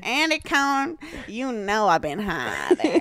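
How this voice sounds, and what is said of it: Imitates another person's voice. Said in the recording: “my Snoop Dogg impression”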